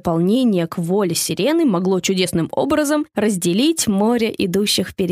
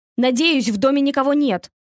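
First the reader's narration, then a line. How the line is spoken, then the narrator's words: Shouted. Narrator (Russian): крикнул один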